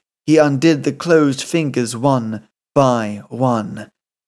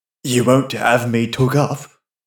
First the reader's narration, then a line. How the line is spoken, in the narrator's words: He muttered hoarsely